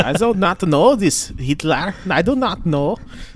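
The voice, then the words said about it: Put-on German accent. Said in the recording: “little German accent every time I try to do a German accent”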